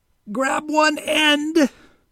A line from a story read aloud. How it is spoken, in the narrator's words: Wally squeaked, trying not to screech, to remain calm